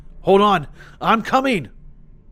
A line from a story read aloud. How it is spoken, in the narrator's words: I called out